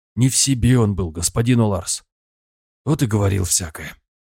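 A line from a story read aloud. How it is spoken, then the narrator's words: Sighing. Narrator (Russian): вздохнул Хакон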